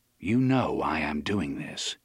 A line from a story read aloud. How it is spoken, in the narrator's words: he said calmly